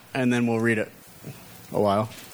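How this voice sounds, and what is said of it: Lancaster accent on one phrase. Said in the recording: “I just used my Lancaster accent. Did you hear that? A while? Only they say that.”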